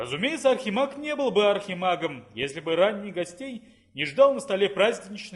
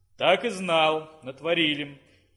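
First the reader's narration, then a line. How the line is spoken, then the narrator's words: Sighing wizard. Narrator (Russian): вздохнул чародей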